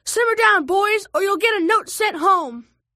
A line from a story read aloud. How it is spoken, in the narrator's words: our teacher, Miss P, who was sitting at the front of the bus, turn around and yell